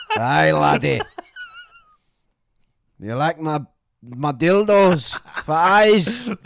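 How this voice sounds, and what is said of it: Attempted Scottish accent. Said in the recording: “is going to be Scottish ... I'm not doing a Scottish accent. I can't do it. Neither can you, can you?”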